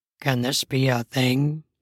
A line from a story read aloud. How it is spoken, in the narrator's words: He asked in an unsure voice